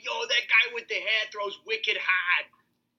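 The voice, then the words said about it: Put-on Boston accent. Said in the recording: “do a pretty good Boston accent.”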